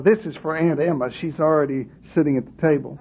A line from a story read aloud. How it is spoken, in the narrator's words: mumble an occasional